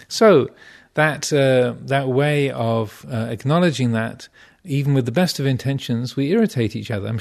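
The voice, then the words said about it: Strong English accent. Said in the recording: “my obnoxiously English accent”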